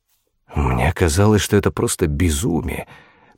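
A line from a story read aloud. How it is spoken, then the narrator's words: Notary muttering. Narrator (Russian): пробормотал нотариус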